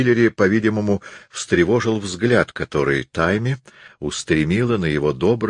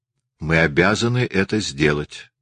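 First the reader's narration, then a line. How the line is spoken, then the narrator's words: Plain. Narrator (Russian): сказала Тайми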